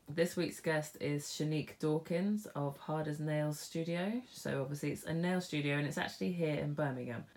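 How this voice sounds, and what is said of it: Congested, blocked-up sick voice. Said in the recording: “I have not been well. My voice is a bit all over the place ... I still have the awful coughs and the sneezing and I sound blocked up”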